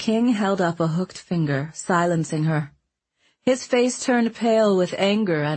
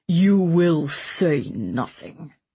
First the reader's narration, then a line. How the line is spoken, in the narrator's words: he said in a choked growl